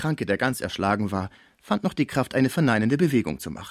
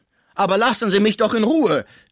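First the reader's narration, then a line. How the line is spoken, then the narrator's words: Called out. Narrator (German): rief Pons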